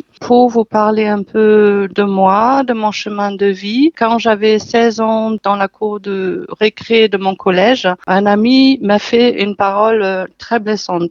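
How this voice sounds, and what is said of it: German accent speaking French. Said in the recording (French): “mon petit accent, je suis d'origine allemande”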